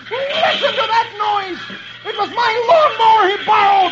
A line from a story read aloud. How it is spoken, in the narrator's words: he sits up in bed and yells